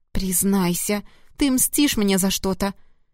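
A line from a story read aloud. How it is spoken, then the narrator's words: Whimpering moan. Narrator (Russian): простонала Поля, уже почти хныча от неприятных ощущений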